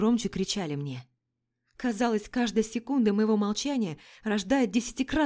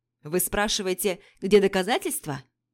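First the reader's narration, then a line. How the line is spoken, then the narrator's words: Harsh bark. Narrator (Russian): Рявкнул Жак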